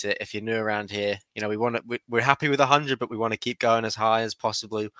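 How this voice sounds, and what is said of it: Australian accent. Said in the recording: “sound very Australian”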